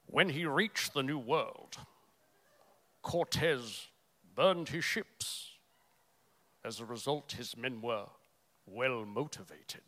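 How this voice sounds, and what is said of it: Poorly attempted movie-character accent. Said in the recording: “Try my accent. ... Terrible.”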